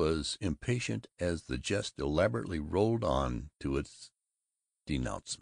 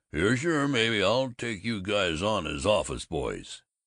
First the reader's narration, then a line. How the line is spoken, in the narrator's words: He grunted